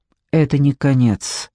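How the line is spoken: Gloomy. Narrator (Russian): произнес он мрачно

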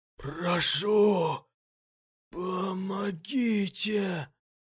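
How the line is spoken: Hoarse drawling voice. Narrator (Russian): Сиплый тягучий голос

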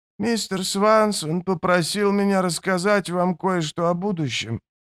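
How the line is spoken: Hesitant. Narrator (Russian): неуверенно начал он

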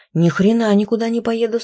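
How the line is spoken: Shouted. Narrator (Russian): снова прокричал Василий

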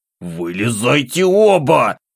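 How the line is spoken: Growl. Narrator (Russian): рыкнул

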